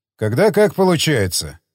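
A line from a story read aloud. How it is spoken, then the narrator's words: Calm reply. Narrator (Russian): спокойно ответил Павлов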